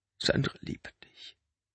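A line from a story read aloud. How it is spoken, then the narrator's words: Quiet. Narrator (German): sagte Benny leise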